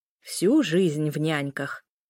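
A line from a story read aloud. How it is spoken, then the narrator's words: Distant grumbling. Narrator (Russian): ворчание доносилось из кухни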